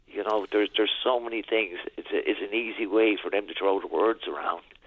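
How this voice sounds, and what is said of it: Raspy, strained throat. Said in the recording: “my throat's getting raspy”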